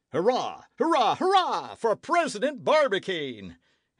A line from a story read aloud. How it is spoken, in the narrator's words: exclaimed Nicholl